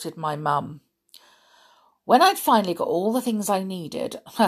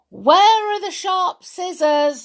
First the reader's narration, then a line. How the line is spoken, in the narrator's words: I shouted